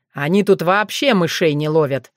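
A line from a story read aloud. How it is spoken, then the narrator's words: Satisfied snort. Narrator (Russian): довольно хмыкнул он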